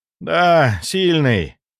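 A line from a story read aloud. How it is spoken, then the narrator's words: Dejected voice. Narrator (Russian): упавшим голосом ответил он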